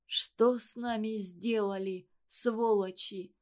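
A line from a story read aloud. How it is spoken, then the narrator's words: Strained, choked with sobs. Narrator (Russian): с трудом проговорила она, вздрагивая от подавленных рыданий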